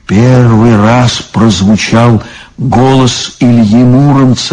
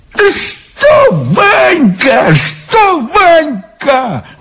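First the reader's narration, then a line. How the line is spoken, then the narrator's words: Exclamation. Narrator (Russian): воскликнул Иван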